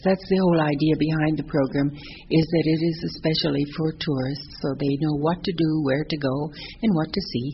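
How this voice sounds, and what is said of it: North American accent. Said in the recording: “we can hear you have a North American accent”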